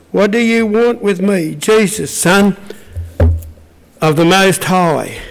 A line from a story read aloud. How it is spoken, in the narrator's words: He shouted at the top of his voice